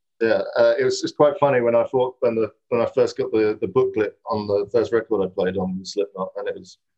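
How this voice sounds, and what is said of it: British accent. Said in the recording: “So you're British, if your accent didn't give that away.”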